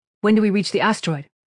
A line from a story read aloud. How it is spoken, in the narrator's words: Kira asked